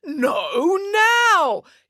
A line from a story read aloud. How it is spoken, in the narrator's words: yelled the head tailor